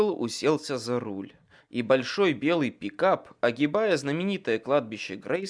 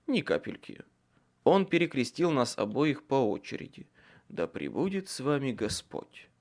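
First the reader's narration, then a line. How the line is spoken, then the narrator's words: Whispered. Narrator (Russian): прошептал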